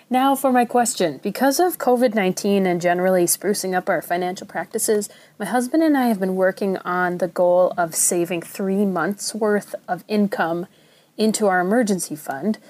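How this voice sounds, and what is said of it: Minnesota accent. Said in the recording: “this is ... from the Twin Cities in Minnesota. It's okay if you think my accent is weird, it comes with the territory.”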